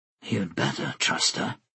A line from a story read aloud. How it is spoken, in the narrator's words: Tanyel said, still in a whisper